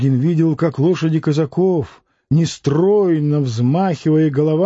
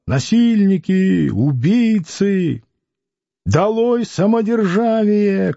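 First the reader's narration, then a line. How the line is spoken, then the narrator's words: Crowd shouting. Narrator (Russian): кричали всюду в толпе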